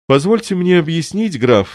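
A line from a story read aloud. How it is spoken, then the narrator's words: Exclaiming. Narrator (Russian): воскликнул Вендрамин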